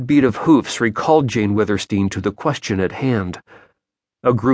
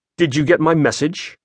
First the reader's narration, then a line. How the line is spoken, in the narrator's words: he asked curtly